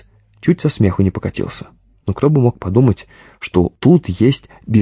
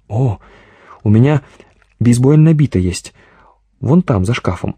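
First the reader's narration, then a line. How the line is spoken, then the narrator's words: Joyful exclamation. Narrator (Russian): радостно воскликнул Юрий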